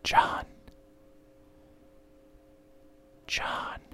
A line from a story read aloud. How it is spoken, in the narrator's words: another voice whispered